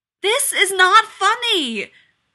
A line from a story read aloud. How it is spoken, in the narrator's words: Rodney yelled